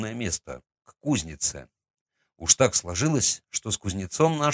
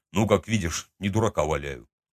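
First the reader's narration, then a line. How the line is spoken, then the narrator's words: Snorting. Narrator (Russian): хмыкнул он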